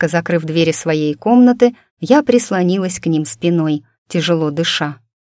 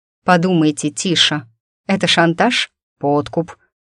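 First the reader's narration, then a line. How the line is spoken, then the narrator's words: Snorting scoff. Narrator (Russian): хмыкнул принц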